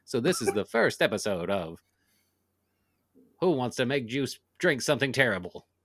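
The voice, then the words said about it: Game show host impression, gangster-like. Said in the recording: “is that Regis Philbin impression? ... It's not a good one ... What is this 1950s gangster persona you adopted?”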